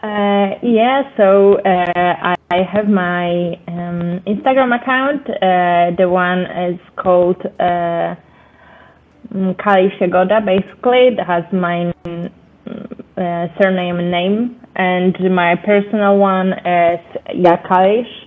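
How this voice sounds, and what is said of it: Speaks English with an accent. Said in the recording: “I know it's maybe hard to hear it with my accent”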